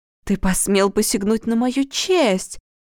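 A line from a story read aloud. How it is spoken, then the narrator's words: Exclaiming. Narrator (Russian): воскликнула Света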